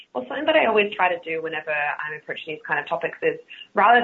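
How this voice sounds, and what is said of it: Australian accent. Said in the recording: “my Australian accent, R's aren't a thing that exists”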